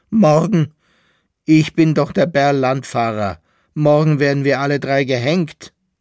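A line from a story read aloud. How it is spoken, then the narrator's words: Shrill laughing shout. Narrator (German): rief der Berlandfahrer mit einem schrillen Lachen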